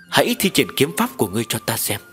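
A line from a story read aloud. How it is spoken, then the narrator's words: Smiling old village chief. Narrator (Vietnamese): Trưởng thôn mỉm cười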